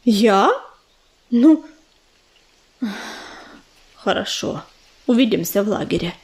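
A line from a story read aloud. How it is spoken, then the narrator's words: Gloomy mutter. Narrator (Russian): пробормотал он, уныло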